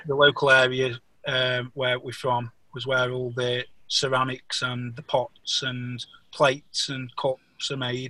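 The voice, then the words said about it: Stoke-on-Trent Potteries English accent. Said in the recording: “Stoke-on-Trent accent, a Potteries accent, it's called. ... this is called the Potteries accent. ... I love your accent.”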